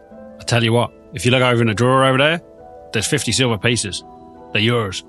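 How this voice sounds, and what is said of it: Put-on West Country accent. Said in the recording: “You don't know why my accent's gone West Country.”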